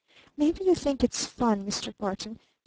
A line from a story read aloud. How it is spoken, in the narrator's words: she whispered